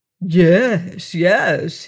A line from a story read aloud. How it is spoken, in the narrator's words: he mocked her